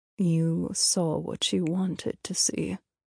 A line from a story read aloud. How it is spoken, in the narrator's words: Lucius said quietly, discomfort in his features